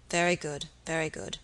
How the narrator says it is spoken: muttered the baronet

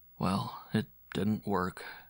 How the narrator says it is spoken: he groaned

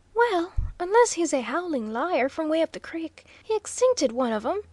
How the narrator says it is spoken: cheerfully commented Waldo

